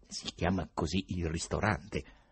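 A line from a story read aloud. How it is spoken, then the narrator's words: Gloomy mutter. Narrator (Italian): Riohin, che borbottò tetro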